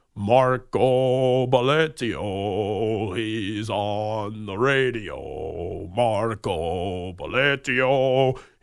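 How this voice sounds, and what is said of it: Sings in an operatic voice. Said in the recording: “he would sing Marco Belletti's name in an opera voice”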